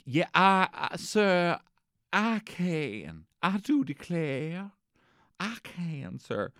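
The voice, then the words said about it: Put-on Alabama accent, Forrest Gump. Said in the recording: “does anyone know how to do an Alabama accent? ... I just seen Forrest Gump”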